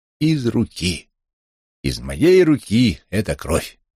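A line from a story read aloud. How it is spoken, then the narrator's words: Tragic yet tender voice. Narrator (Russian): Дахно сказал голосом трагическим, но нежным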